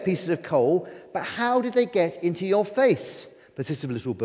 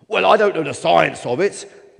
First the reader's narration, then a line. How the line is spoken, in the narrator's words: bellowed the snowman